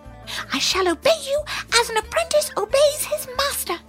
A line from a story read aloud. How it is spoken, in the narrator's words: cried the hare